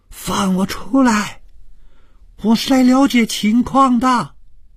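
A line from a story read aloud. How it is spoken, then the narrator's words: Loud shouting. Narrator (Chinese): 放开了嗓子，大声地喊着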